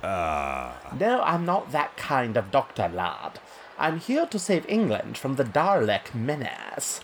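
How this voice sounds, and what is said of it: Unconvincing put-on English accent. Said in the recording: “your rubbish accent? ... You don't sound very English. Not like we do.”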